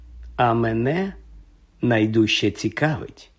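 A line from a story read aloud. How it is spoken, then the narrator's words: Gentle. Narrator (Ukrainian): лагідно промовив Дамблдор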